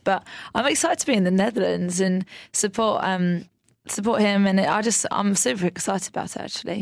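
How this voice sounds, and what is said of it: Lovely British accent. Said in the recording (Dutch): “met haar heerlijke Britse accent”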